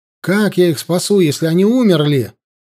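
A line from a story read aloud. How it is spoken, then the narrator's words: Distressed exclamation. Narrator (Russian): воскликнул он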